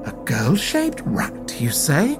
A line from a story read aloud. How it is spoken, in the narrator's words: Red Nance muttered to Samson